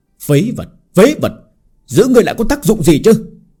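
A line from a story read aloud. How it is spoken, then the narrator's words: Angry shout. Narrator (Vietnamese): Lão nhân giận dữ hét lên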